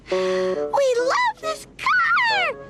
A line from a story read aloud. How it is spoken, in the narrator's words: shouted the five little Pop Snorkels